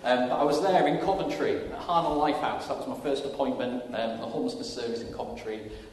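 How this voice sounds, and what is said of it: Yorkshire English accent. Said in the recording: “I'm from Yorkshire, as you might be able to tell by my accent”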